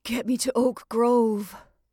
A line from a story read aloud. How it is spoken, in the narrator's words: Lois gasped